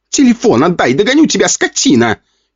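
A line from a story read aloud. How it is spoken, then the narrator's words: Furious shouting. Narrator (Russian): кричала взбешенная полторашка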